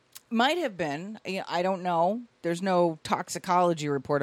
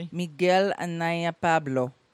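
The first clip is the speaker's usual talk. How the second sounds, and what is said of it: Put-on Spanish accent. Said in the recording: “in your best Spanish accent”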